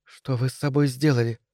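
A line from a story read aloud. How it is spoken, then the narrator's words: Whisper. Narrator (Russian): прошептала я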